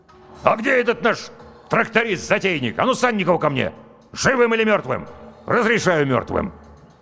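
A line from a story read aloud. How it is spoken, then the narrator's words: Barked. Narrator (Russian): Комбат рявкнул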